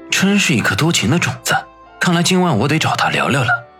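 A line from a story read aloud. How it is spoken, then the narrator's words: Sighing, quiet muttering. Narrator (Chinese): 一个人叹了口气，小声的嘀咕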